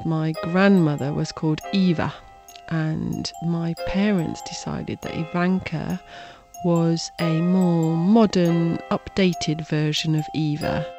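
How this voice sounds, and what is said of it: British accent. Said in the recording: “Her mother's from Britain, hence the accent. British.”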